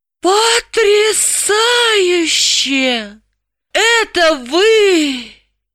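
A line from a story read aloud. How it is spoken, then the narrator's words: Envious exclamation. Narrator (Russian): Граблин воскликнул с нескрываемой завистью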